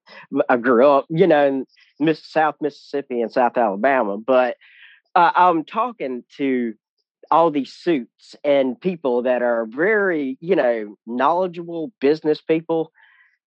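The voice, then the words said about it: Southern American accent. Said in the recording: “my Southern, I can't help it, my accent”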